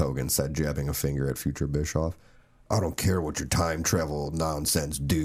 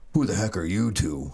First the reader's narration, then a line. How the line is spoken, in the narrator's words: Hogan barked